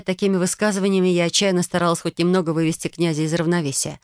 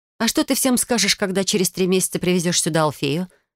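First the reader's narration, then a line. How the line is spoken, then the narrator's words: Plain. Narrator (Russian): спросил я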